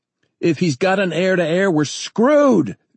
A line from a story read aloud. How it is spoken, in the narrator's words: Danny shouted